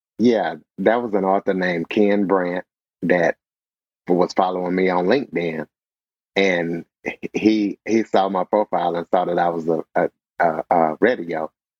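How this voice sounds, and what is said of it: Smooth radio broadcaster voice. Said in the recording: “you have that radio voice.”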